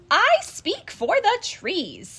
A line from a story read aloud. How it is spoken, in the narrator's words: cried the Lorax